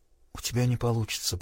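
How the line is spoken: Whisper. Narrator (Russian): прошептала Селиен

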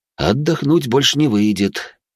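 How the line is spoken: With a deep sigh. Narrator (Russian): потянулся я и глубоко вздохнул

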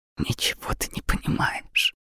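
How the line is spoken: Mutter. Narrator (Russian): пробормотала она

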